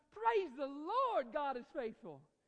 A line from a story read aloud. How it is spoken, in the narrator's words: the lady shouted